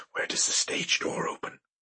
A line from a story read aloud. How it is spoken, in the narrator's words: He whispered